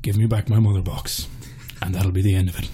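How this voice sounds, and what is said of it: Ciarán Hinds / Liam Neeson-style impression. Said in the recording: “Ciarán Hinds ... Liam Neeson ... that accent coming from a giant grey CG goat man ... Oh, very good.”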